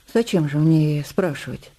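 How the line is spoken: Dry remark. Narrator (Russian): произнесла Ефросинья сухо

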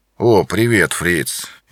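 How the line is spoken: Apologetic mumble. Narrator (Russian): извиняющимся тоном пробормотал

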